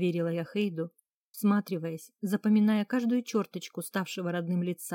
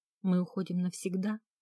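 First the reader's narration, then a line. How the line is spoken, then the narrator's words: Quiet girl's question. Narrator (Russian): тихо спросила девочка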